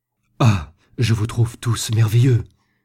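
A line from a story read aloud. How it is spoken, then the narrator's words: Bursting exclamation. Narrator (French): s'écria-t-il en éclatant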